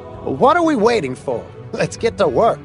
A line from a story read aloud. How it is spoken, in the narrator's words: Heading eagerly toward the corrugated iron shed, Bill Laws yelled